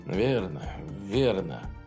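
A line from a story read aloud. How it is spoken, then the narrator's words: Muttered. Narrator (Russian): пробормотал советник Филлипс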